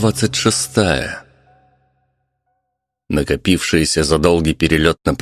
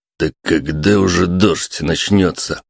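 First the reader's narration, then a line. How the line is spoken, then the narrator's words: Old man grumbling. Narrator (Russian): буркнул дед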